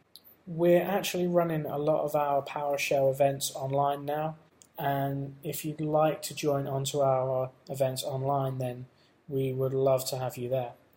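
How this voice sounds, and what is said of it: British English accent. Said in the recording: “you can probably tell from my accent, I'm originally from UK”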